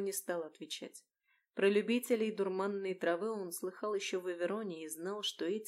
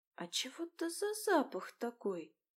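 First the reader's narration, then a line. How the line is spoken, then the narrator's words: Suspicious whisper. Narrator (Russian): подозрительным шепотом поинтересовалась Флорика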